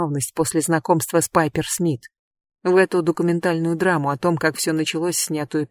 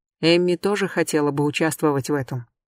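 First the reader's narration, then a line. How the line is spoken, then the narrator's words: Plain. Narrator (Russian): сказал он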